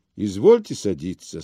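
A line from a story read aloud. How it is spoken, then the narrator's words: Calm reply. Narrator (Russian): спокойно отвечал он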